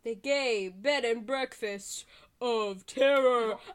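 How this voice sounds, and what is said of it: Mock scary horror-movie voice. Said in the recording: “Is my scary voice good?”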